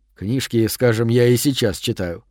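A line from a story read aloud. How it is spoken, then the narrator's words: Smirking mutter. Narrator (Russian): с ухмылкой пробормотал я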